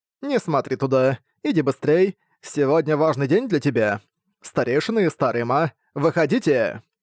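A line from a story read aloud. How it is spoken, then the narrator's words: Laughing. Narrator (Russian): Рассмеявшись, проговорила Сы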